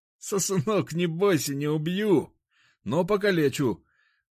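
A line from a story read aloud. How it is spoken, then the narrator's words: Boar speaking, laughing. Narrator (Russian): сказал кабан и рассмеялся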